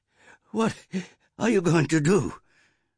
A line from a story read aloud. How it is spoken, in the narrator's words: her mother panted from her run